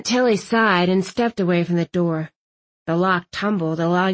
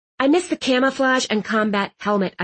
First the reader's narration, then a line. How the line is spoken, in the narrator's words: I snapped